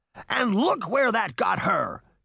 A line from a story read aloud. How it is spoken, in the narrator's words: roared